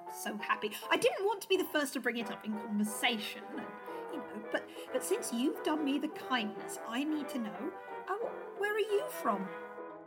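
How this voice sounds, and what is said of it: Affected English accent. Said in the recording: “But your accent doesn't... ... Of course, this is what I naturally sound like. ... that English accent is so exotic”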